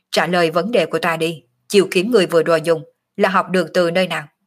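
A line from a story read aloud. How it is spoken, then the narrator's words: Cold. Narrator (Vietnamese): Phù Enix lạnh lùng nói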